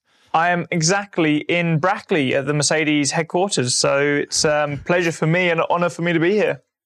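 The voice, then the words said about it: British English accent. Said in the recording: “that British kind of. Is it an accent or is it a type of an English? The real English. ... I like the accent a lot. The British accent is very, very good.”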